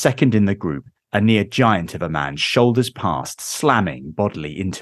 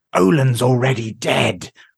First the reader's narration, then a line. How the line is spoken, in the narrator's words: rasps the haggard figure